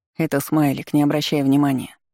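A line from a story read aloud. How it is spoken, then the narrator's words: Calm explanation. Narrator (Russian): спокойно пояснил Саймон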